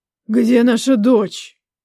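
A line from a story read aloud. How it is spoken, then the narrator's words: Hot breathy whisper. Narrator (Russian): Жарко выдохнул мне в висок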